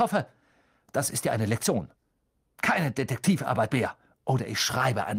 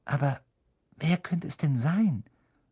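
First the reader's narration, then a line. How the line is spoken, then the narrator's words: Calm conversational voice. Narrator (German): sagte mit ruhiger Stimme, als würde sie gerade ein Gespräch fortsetzen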